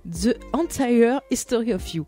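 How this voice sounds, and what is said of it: English title in a poor accent. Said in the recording (French): “l'accent pourri arrive dans quelques secondes ... Magnifique accent pourri”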